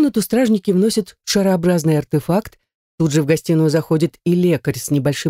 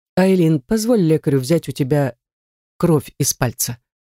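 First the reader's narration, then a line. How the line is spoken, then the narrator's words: Gentle request. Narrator (Russian): мягко просит Редгер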